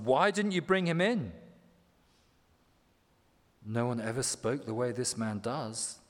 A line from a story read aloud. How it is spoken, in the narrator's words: the guards replied